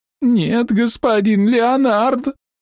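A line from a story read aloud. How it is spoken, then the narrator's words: Holding back sobs. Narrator (Russian): ответила она, и тут же ее плечи затряслись от сдерживаемых рыданий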